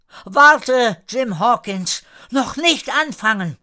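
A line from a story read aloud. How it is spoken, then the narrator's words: Small boy calling. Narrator (German): ein kleiner Junge rief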